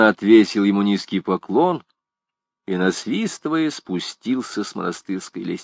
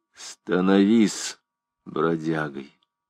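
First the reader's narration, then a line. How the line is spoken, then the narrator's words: Archdeacon's cold reply. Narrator (Russian): Архидиакон холодно ответил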